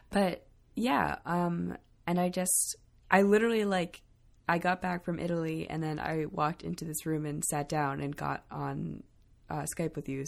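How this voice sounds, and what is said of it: Weak voice cutting in and out. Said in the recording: “My voice is a little weird. I've been sick, and so it goes in and out a little bit”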